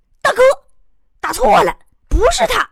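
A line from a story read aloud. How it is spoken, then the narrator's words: Sudden shout. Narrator (Chinese): 突然听有个人喊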